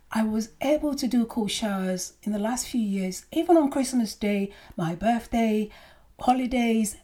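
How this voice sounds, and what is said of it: Hoarse, partly lost voice. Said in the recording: “you might notice I've kind of lost my voice a little bit”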